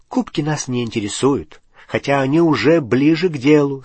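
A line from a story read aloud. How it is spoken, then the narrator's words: Plain. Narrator (Russian): сказал Гарри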